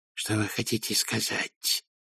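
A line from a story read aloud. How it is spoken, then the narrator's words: Hissed, with hidden fear. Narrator (Russian): прошипел ревизор, но в голосе слышался страх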